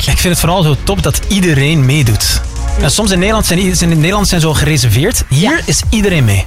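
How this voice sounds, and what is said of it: Dutch accent turning somewhat Antwerp. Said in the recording (Dutch): “je hoort het ook aan mijn accent, hè? ... is het al meer Antwerps? De Nederlanders wel, ja.”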